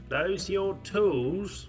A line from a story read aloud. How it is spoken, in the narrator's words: Peter chuckled warmly